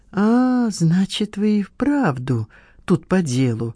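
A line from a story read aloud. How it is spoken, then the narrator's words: Drawling. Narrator (Russian): протянул потертый хиппи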